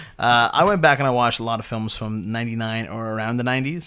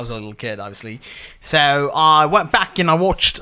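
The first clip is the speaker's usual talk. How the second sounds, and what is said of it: Put-on accent. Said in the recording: “I don't know why I'm doing an accent.”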